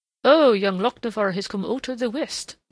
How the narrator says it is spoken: warbled McLean merrily

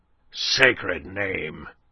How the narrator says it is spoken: growled a voice behind them

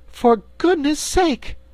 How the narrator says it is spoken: cried Dorothy, amazed

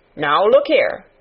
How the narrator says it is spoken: he said sharply

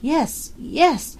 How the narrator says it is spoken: she gasped

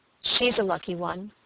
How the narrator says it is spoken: muttered Luke, with lazy indifference

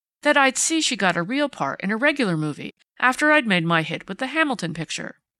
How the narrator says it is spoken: took him up eagerly

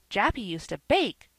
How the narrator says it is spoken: cried little Davy

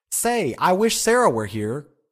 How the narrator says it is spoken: cried Joe Welling

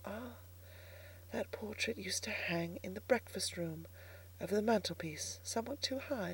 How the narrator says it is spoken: Striving to take each new discovery as quietly as I could, I whispered to myself

